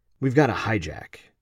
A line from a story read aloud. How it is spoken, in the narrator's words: Christian calmly sat back down in his chair and quietly said